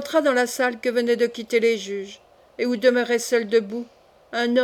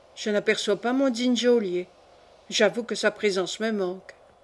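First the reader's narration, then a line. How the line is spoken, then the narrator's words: Murmured. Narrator (French): murmura-t-il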